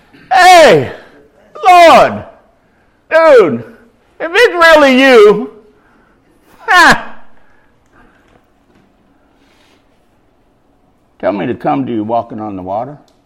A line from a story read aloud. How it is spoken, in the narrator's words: Peter called out to him